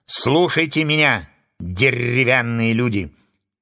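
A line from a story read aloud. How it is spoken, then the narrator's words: Loud. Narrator (Russian): Громко начала она свою речь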